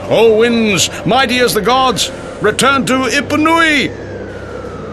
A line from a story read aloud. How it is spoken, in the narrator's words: Thinking himself to be in control, Maui called out